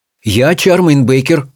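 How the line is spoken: Plain. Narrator (Russian): сказала Чармайн

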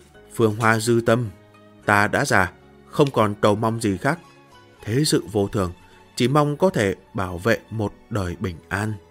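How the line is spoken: Aging man muttering to himself. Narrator (Vietnamese): Hạo Đức Vương đầu tóc cũng đã hoa râm, tự lẩm bẩm

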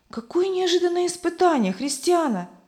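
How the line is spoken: Exclaiming. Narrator (Russian): воскликнула Любовь

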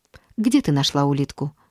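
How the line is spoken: Plain question. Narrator (Russian): спросила мама

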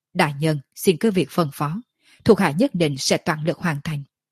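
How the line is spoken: Cold soft laugh, woman. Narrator (Vietnamese): Bạch y nữ tử lạnh lùng cười khẽ nói

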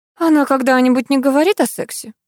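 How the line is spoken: Weary question. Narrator (Russian): устало спросила я у Алисы

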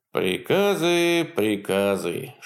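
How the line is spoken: Playful grumbling. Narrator (Russian): шутливо ворчал он

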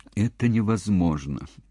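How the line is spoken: Sad speech. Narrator (Russian): печально произнес доктор Ехлаков

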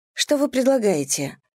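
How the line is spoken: Forced calm question. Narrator (Russian): спросила я, наконец, как можно более спокойным тоном

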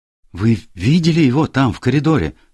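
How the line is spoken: Exclamation. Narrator (Russian): воскликнула она

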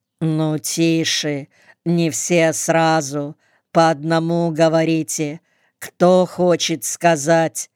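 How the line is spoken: Calm, weary, unraised voice. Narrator (Russian): спокойно, не повышая голоса, будто давно надоевшая, сказал, поморщась

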